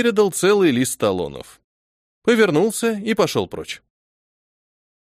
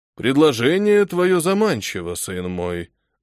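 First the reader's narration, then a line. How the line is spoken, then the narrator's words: Priest's sigh. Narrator (Russian): вздохнул батюшка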